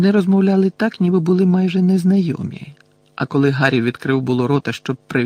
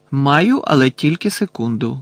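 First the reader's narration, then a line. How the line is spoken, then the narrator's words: Plain. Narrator (Ukrainian): відповів містер Візлі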